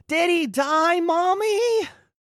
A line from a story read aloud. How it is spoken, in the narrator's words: he's just screaming